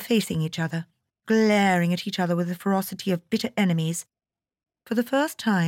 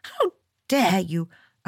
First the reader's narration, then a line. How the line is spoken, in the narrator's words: cried angrily